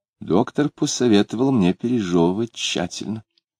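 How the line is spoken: Calm reply. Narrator (Russian): Алина спокойно ответила

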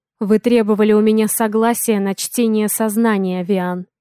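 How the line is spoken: Wry snort. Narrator (Russian): хмыкнул я

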